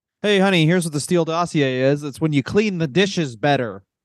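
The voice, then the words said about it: Imitates another person's voice. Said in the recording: “do an impression”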